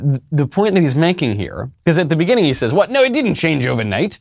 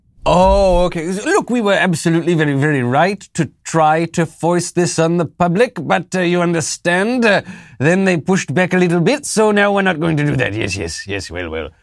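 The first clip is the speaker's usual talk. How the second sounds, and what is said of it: Poor put-on British accent. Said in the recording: “is this a South African accent or a New Zealand accent? ... It's not great. ... I do my Fauci better than my British.”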